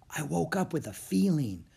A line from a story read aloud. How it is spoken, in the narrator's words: Annie said in a hushed voice